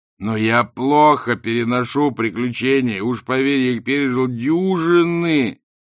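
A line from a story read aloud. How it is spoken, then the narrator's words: Wailing. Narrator (Russian): взвыл Ринсвинд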